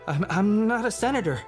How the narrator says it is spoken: he sputtered

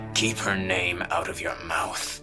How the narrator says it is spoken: he snarled

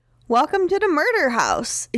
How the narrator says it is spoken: exclaimed cheerfully

